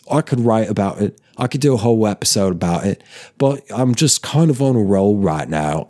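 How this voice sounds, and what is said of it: Put-on northern English chav accent. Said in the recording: “talking more kind of like a chav, maybe? Or more like a general sort of like northernish England area? ... butchering the accent ... I'm absolutely sure I'm butchering it”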